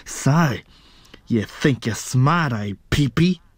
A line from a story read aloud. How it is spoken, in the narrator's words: He snarled